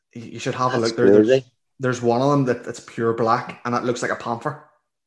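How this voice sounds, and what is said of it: Belfast Northern Irish accent. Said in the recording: “You're real Belfast ... the accent has never left”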